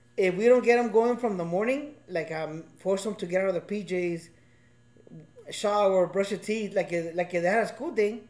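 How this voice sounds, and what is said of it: Speaker's own accent coming through. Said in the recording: “My fucking accent came back.”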